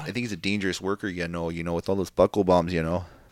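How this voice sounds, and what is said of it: Canadian-sounding impression of another person. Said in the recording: “Is he Canadian? ... doing my Bret Hart impersonation”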